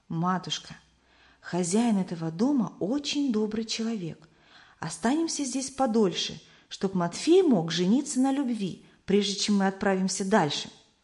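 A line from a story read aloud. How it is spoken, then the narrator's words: Whispered into ear. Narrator (Russian): Самуил шепнул на ухо матери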